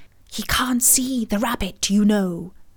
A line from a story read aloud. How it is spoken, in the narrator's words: she added with a loud stage whisper